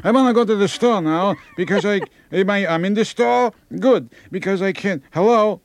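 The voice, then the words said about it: Put-on Jewish accent. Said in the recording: “they have a Jewish accent ... they get a Jewish accent”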